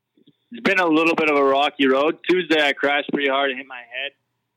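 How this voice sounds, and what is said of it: Mixed accent, mainly Canadian. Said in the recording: “My accent's probably a little bit of a mix of everything, but... Still at heart, I'm Canadian, so I would say that my accent's there.”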